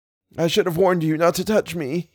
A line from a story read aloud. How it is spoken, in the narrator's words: he moaned